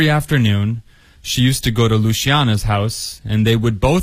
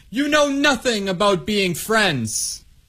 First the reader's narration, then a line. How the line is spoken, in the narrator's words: she yelled